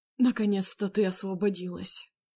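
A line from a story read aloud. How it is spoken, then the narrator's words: Hot whisper. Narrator (Russian): Его жаркий шепот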